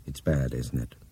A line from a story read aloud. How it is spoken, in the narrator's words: Brian asked in a low voice